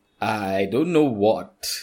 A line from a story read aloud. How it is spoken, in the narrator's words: stammer, confused and scared